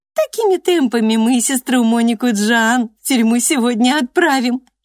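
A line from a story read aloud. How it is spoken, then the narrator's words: Giggling. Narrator (Russian): хихикнула Трикси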